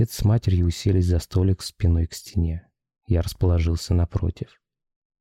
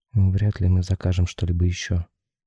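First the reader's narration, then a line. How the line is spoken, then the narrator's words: Mother speaking gloomily. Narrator (Russian): уныло сказала мать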